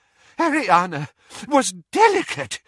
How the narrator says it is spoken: said Doge desperately

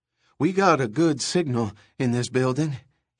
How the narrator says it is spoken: he panted

